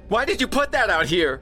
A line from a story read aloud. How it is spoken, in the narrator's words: she shrieked